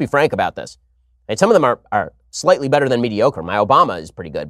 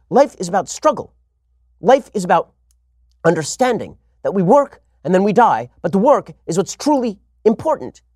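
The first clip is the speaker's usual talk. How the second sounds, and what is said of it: Imitates another person's voice. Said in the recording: “Jordan Peterson impersonation. I can't really do the accent. I'm not great with Canadian accents. I mean, I'm not great with any of my impersonations.”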